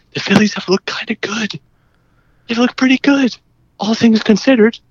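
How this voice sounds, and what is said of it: Quiet, hushed voice. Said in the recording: “I'm going to say this very quietly. ... Here's my quiet voice.”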